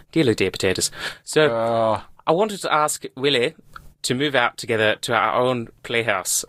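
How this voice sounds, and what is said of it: Put-on Irish accent. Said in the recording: “I'll do an Irish accent.”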